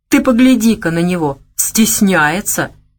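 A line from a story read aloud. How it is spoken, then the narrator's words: Slightly hysterical laugh. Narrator (Russian): чуть истерично хохотнула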